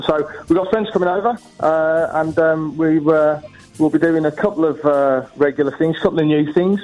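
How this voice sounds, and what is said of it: Birmingham English accent. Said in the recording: “from Birmingham. That's where I'm from originally. As you can probably tell, shining through ... It does come shining through the accent.”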